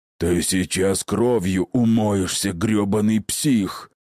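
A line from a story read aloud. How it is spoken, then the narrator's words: Aggressive growl while attacking. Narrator (Russian): прорычал Атанак, срываясь в атаку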